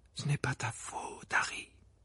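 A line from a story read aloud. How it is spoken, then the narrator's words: Murmur. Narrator (French): murmura Madame Weasley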